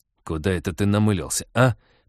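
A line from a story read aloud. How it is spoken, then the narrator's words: Growl. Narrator (Russian): прорычал он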